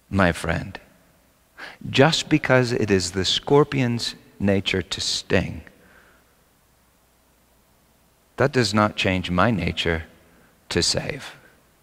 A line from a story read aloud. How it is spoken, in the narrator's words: The old man calmly he said